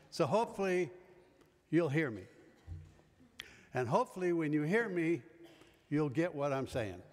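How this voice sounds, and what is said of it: Loud projecting teacher voice. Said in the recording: “I'm going to use my old teacher voice and playground voice”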